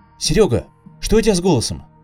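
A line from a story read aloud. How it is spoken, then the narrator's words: Worried question. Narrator (Russian): взволнованно спросил его коллега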